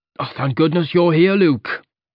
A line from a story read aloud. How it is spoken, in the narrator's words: he exclaimed